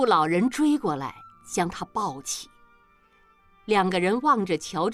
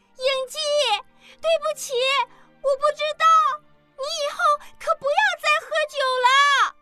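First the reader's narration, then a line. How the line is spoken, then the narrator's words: Loud shout. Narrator (Chinese): 阿莲大声喊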